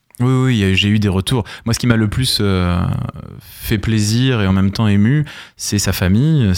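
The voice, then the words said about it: Southern French accent, clipped words. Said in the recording (French): “qui parfois a tendance à couper les mots, qui vient du Sud avec mon accent.”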